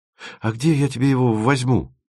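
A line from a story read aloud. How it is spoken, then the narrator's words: Muttered. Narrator (Russian): пробормотал Тимофеев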